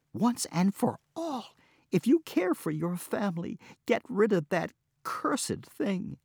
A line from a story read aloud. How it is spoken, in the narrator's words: cried his wife